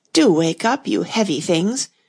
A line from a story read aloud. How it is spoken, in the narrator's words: she went on in an impatient tone